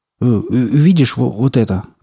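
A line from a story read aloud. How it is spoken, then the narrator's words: Stammering. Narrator (Russian): заикаясь, сказал Малдер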